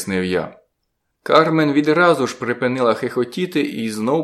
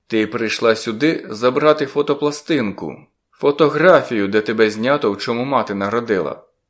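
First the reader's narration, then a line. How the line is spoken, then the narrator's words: Plain. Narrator (Ukrainian): сказав я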